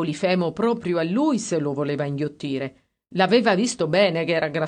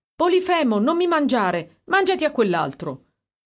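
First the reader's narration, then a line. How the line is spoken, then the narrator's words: Shouted. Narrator (Italian): Uno gridava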